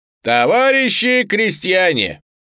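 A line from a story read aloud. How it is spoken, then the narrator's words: Loud proclaiming. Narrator (Russian): громко вещал Коган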